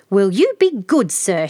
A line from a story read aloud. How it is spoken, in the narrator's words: she exclaimed